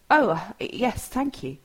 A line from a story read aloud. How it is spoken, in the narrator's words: Tom stammers pathetically